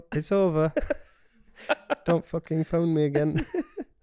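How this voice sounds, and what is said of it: Put-on accent. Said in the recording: “I don't know why I've gone in that accent.”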